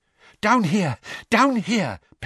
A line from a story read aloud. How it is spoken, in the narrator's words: panted Mr